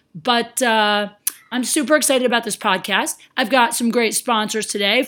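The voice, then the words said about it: Faded, hoarse voice. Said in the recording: “my voice is faded right now because I just got back from Florida and I got bronchitis there and I'm recovering”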